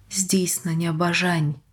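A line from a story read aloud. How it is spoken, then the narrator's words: Quiet. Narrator (Ukrainian): тихо промовила Едді Дорн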